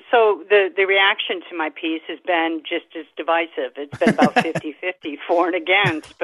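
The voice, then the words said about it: Slight Massachusetts accent. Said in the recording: “you sound like you have a little bit of an accent ... Massachusetts originally ... I can hear it a little bit. Massachusetts.”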